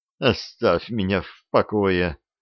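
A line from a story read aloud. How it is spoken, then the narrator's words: Moaned. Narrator (Russian): простонала она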